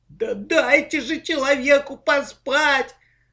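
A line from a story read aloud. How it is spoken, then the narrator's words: Howl from another room. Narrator (Russian): взвыл в своей комнате Лёшка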